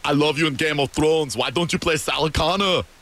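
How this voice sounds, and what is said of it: Imitates another person's voice, accent. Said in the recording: “That was an amazing accent.”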